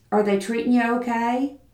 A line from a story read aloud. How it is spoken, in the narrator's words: He spoke to her in his soft Texas drawl